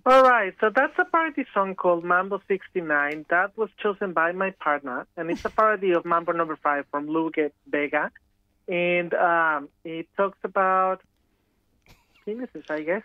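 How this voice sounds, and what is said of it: Professional journalistic broadcast delivery. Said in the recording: “You sounded so professional ... in a journalistic accent”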